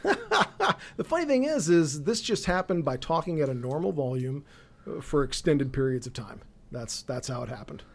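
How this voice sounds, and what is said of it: Hoarse, raspy, losing voice. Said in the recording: “if I sound like I've switched from one pack a day to two packs a day ... losing my voice”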